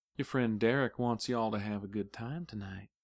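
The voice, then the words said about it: Whispered Texas drawl. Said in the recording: “whispering in a Texas drawl”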